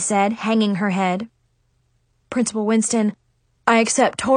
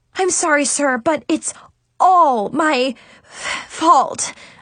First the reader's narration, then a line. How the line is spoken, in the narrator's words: I stammered